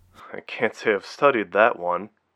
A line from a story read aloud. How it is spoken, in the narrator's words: Rachel said with a little laugh